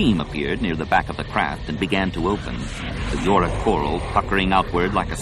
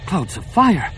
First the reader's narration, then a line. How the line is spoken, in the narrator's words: Numa gasped